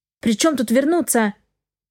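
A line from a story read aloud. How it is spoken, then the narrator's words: Sudden snap. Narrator (Russian): Огрызнулась я неожиданно для себя самой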